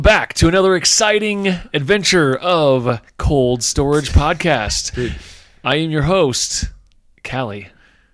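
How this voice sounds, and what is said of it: Radio announcer voice. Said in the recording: “I love it when you get that voice going... Radio voice.”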